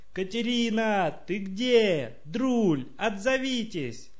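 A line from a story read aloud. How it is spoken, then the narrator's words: Prolonged shouting. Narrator (Russian): Так он кричал очень долго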